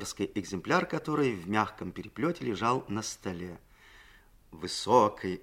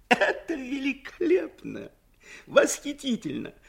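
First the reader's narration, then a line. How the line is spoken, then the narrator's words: Loud laughter. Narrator (Russian): Ленин захохотал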